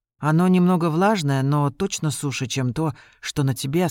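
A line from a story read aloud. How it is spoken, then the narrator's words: Plain. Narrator (Russian): сказала девушка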